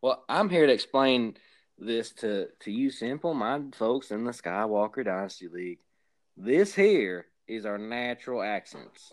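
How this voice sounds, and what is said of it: Exaggerated Southern hillbilly accent. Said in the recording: “putting on that extra Southern accent nonsense”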